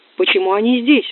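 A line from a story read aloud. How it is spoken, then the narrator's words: Shout. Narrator (Russian): закричал он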